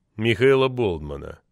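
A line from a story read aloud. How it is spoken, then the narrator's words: Party secretary's sigh. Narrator (Russian): вздохнул партсек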